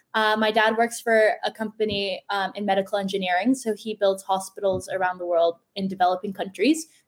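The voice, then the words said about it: American accent. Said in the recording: “Most of my friends were American, hence the accent.”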